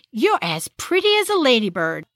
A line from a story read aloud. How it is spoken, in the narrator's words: her nursemaid, a Black woman named Alice Tittle, exclaimed